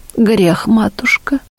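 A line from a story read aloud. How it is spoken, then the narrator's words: Pitiful voice. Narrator (Russian): жалким голосом признала Татищева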